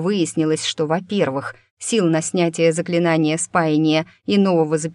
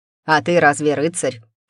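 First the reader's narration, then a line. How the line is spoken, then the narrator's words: Snorting retort. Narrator (Russian): фыркнула в ответ Ба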